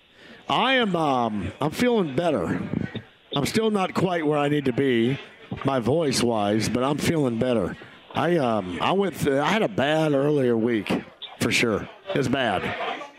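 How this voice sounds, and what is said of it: Slightly raspy, hoarse voice. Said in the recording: “you definitely sound a little raspy”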